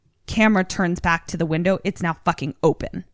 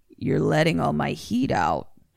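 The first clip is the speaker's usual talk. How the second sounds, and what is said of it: Eerie altered voice, not hers. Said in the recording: “in a not Deborah voice”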